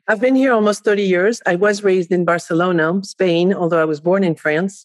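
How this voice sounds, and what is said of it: French accent. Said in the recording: “you are obviously French and speak multiple languages. So if people hear the accent”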